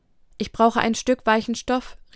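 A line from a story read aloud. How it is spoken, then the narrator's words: Calling downward. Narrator (German): rief nach unten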